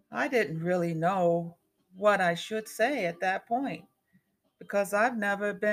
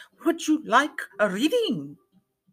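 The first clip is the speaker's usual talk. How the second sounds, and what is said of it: Heavy Eastern European-style accent. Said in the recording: “Perhaps she is from Romania. ... in a heavy accent voice”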